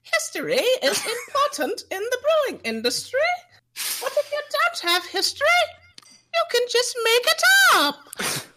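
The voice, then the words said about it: Crazy falsetto imitating another person. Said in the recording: “Jack has this crazy falsetto ... Crazy falsetto.”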